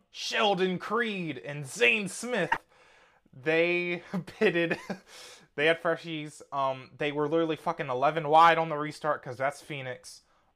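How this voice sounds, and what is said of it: Imitates another person's voice. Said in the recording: “Did you just get hacked by Vince Welch? ... My Vince Welch impression, honestly, is so good. ... It is spot on.”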